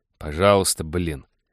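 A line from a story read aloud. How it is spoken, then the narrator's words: Sarcastic mutter. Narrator (Russian): саркастически буркнул лейтенант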